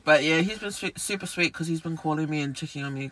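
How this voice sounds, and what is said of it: Low, deep voice from a cold. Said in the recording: “As you can still hear, I'm still getting over a cold... my voice is really low... it's really low, like, compared to other girls, but it's lower than normal”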